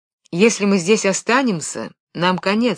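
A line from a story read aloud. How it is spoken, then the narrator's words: Plain. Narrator (Russian): сказал Бен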